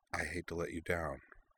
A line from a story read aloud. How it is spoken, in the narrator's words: added in a near whisper